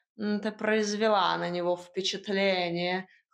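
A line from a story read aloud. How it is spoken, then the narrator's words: Snort, cat. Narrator (Russian): хмыкнул кот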